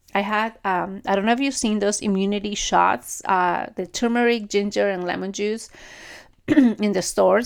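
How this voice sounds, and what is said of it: Raspy throat. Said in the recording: “I'm kind of like raspy in my throat.”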